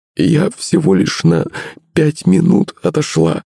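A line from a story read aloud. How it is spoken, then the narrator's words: Sobbing. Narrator (Russian): всхлипнула Пышка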